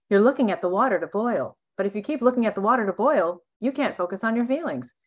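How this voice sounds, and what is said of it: Impression of Esther Hicks. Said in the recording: “I love doing her impression.”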